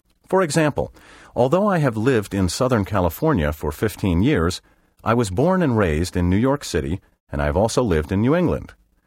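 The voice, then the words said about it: Eastern American accent. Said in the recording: “my accent is, for the most part, an Eastern one”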